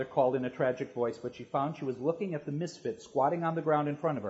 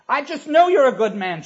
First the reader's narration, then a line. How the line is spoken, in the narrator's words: she said desperately